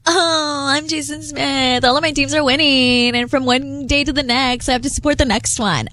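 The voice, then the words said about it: Valley Girl style mocking impression. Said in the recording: “why are you going Valley Girl with my impression? ... that's not how I sound.”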